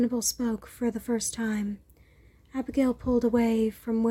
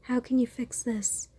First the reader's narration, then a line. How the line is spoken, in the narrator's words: sighed